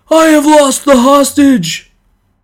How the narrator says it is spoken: The man who had lost him cried out in a loud voice

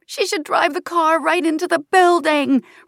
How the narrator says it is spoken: Raina screams in frustration

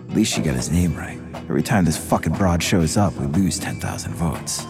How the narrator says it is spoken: Alan King leaned over and quietly said to Tommy

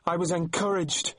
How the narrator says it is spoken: she shouted after him

